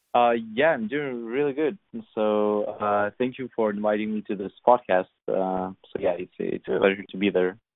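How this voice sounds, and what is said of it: European accent. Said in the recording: “based on your name and accent, I guess somewhere in Europe”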